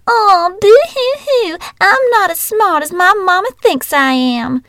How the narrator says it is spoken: in a shrill, whiny voice

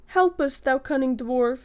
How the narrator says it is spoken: he cried

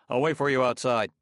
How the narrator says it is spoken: He turned hastily and said

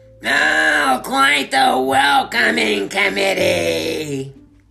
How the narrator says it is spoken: sneered Murkle

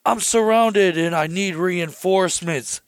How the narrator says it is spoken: Shaggy yells

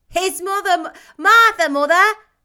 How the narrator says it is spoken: cried the two young Cratchits

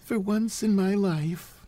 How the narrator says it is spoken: said George sadly

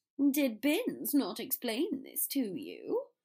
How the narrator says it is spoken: Draco asked impatiently

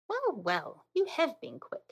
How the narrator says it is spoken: exclaimed

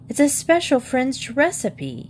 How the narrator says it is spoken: exclaimed

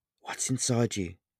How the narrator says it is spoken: asked nervously

